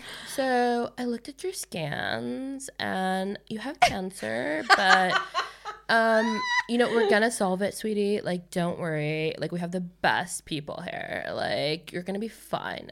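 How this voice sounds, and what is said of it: Exaggerated LA valley-girl speech. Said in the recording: “I grew up speaking like a Kardashian because I only went to school on the west side of LA ... people think you're fucking dumb”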